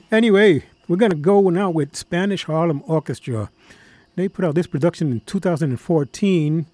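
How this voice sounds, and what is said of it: Slightly hoarse voice. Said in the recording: “My voice is a little hoarse ... Trying to get back my broadcaster's bass.”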